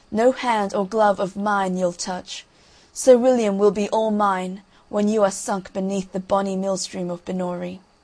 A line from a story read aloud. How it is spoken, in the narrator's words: cried the cruel princess